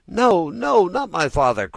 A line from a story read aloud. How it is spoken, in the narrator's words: cried Pinocchio, wild with terror, as he screamed, the gold pieces tinkled together in his mouth